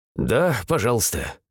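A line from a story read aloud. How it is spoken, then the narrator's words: Hunter's snorting grunt. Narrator (Russian): хмыкнул охотник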